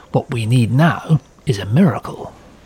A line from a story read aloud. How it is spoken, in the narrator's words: RAF Air Chief Marshal Hugh Dowding, stuffy to his men, was muttering